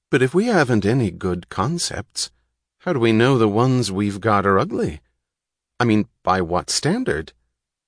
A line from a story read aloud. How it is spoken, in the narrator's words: A young man asked hesitantly